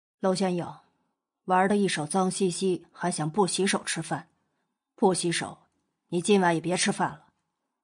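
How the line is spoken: Cold, commanding. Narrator (Chinese): 莫景浩脸一黑，冷声命令

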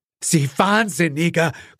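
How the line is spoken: Gasping. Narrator (German): keuchte Gerald

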